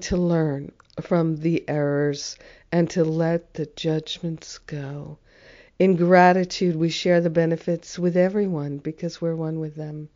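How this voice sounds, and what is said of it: Hoarse, sick-sounding voice. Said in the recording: “my voice is challenged. I've been sick with the flu.”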